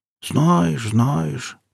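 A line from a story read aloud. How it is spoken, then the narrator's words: Old man's mumble. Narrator (Russian): промямлил старик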